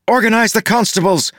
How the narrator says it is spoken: Maracy shouted to Blantach

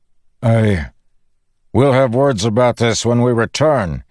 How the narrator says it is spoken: he shouted

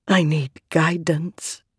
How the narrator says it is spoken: Venli whispered

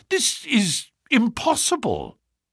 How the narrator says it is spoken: I cried

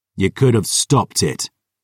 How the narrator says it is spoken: Gabriel snarled

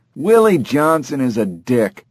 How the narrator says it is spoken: a muffled voice yell back

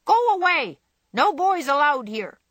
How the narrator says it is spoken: the parrot called out

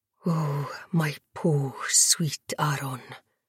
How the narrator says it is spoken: Baptiste whispered

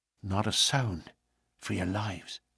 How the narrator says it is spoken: McMurdo whispered

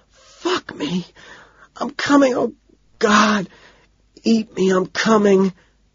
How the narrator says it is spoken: she cries out

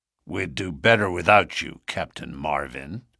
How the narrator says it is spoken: said McGinty coldly

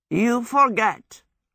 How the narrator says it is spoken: croaked Howl

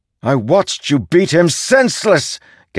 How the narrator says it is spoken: Gav shouted

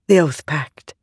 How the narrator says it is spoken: Navani whispered

